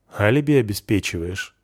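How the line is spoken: Amused grunt. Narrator (Russian): хмыкнул

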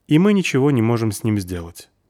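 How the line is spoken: Neutral inquiring tone. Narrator (Russian): поинтересовалась нейтральным тоном спичка

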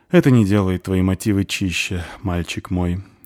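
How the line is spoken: Sighing. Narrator (Russian): вздохнула Дварфиха

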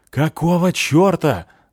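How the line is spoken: Yelling companion. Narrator (Russian): заорал мой напарник по бревну

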